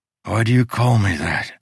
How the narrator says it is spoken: He panted

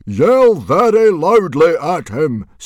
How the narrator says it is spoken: Stoic shouted very loudly

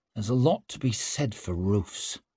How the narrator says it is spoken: she murmured under her breath

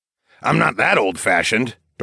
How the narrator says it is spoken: Darwin grunted

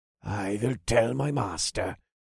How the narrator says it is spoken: the blonde sighed

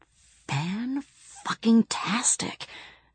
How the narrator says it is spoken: whispered Bibi

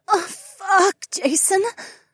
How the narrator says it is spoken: the blonde Brit whimpered

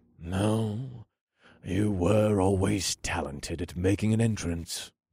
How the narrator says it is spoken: her father sighed with a warm and amused smile

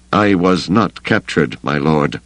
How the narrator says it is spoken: Kabarak said stiffly

